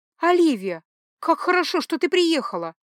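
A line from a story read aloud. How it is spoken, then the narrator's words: Exclamation. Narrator (Russian): воскликнула танцовщица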